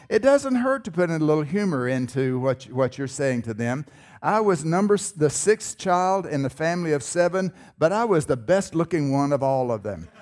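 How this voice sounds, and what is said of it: Southern US North Carolina accent. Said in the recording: “I was born in North Carolina. Maybe you can tell by my accent.”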